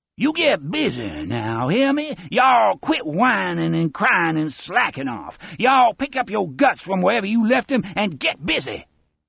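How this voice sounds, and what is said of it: Deep southern accent, contemptuous tone. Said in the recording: “Speedy Parker's faint southern accent has deepened. It has filled with a contempt that is almost liquid.”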